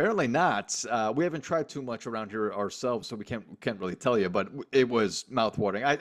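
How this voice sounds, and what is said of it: Usual voice. Nothing is said of it.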